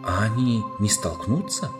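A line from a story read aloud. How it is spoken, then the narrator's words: Trembling whispered question. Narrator (Russian): дрожащим шепотом спросил Каспиан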